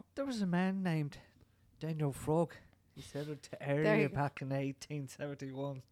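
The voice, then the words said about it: Put-on Irish accent. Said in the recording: “Tis me Irish accent.”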